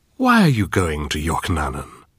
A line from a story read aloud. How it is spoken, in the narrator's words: Lomacom purred